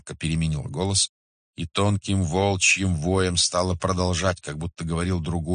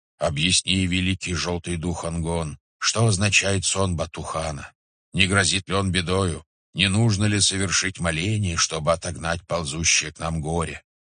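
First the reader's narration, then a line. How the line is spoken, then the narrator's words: Shaman's low voice. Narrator (Russian): Шаманка снова заговорила низким голосом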